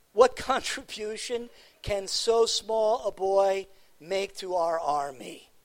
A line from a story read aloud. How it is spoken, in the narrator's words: he asked